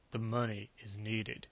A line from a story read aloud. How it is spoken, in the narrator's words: Sharp said in a dour bass voice